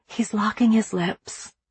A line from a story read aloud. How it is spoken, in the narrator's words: Ginger whispered to Mimi